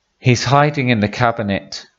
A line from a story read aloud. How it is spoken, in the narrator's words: sighed Norman